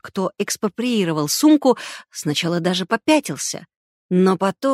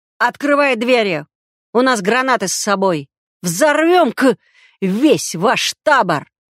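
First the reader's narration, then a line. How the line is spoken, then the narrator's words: Attackers yelling. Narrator (Russian): орали нападавшие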